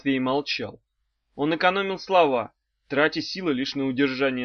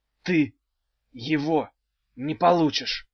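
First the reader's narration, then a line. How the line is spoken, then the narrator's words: Through gritted teeth. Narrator (Russian): сквозь зубы выговорил Багров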